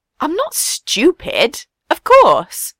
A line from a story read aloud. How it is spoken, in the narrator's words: Sabo said indignantly